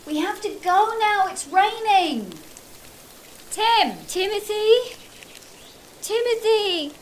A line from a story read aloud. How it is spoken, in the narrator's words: shouted Amanda, as helpfully as she could